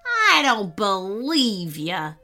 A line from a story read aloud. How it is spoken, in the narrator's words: sneered the robber